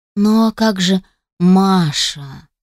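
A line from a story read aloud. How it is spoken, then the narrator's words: Groan. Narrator (Russian): застонал он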